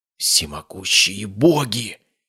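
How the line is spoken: Whisper. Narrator (Russian): прошептала

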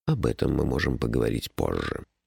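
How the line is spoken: Gentle reminder. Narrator (Russian): мягко напомнил мне Шурф

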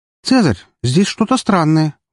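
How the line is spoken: Exclaiming. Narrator (Russian): воскликнула Фокси

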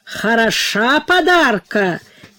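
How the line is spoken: Wild laughter. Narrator (Russian): дико хохотал с коня Ибрагим

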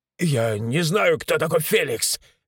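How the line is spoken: Whimpering. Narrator (Russian): заскулил Вадим

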